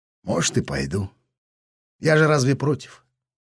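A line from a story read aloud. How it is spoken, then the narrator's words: Melancholy agreement with heavy sigh. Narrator (Russian): Меланхолично согласился парашютист, тяжело вздохнув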